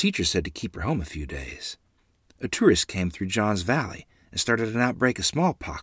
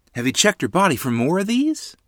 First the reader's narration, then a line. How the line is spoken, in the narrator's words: Ma asked, her voice rising with alarm